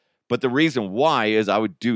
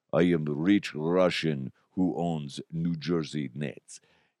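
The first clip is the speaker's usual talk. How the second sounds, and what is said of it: Put-on Russian accent. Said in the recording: “We do not appreciate your accent of the Russian influence. ... do that voice.”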